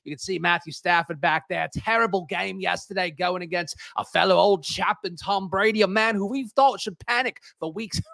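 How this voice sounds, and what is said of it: Put-on British accent. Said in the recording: “I got to stop the accent ... I don't know why I was doing the British accents”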